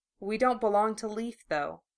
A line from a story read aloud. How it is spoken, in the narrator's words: she said softly